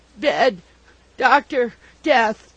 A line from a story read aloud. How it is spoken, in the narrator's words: he gasped in reply